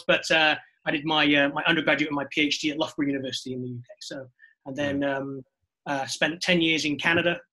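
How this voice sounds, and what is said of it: North Welsh British accent. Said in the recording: “I'm originally from the UK, which is probably why my accent sounds this ... confusing ... Way. So I'm originally from North Wales”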